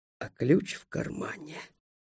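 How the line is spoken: Whispering. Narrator (Russian): шепотом добавил я

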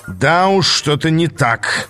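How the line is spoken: Growl. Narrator (Russian): прорычал Аас

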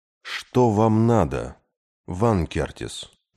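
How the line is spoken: Weary question. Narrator (Russian): устало спросил Кей

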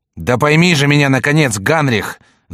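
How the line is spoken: Shouting. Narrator (Russian): закричал Карл

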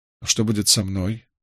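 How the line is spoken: Dejected question. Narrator (Russian): уныло спросил Николас

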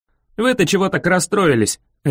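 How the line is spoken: Barked. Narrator (Russian): рявкнул я

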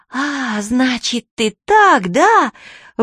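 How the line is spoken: Breathy exhale. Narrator (Russian): выдохнула Чермейн

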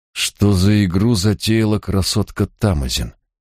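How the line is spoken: Through gritted teeth. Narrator (Russian): процедил Барак

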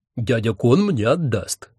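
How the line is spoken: Gloomy mutter. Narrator (Russian): мрачно буркнула одна голова их папеньки

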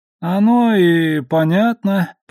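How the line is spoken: Drawling. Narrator (Russian): протянул он

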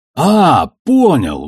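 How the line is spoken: Exclaiming. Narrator (Russian): воскликнул Амос

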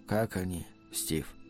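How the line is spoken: Quiet question. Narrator (Russian): тихо спросил Сурендра

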